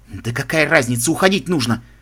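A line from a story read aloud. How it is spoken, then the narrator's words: Muttering. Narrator (Russian): Забормотал он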